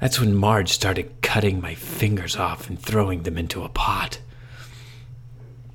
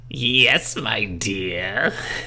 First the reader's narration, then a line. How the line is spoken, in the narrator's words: she cackled